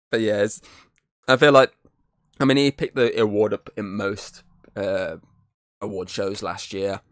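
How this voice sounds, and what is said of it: Sick, strained voice. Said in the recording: “Oh, my voice, I can't do that. This is my sick recording.”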